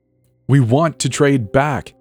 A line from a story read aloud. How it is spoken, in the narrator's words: he shouted after me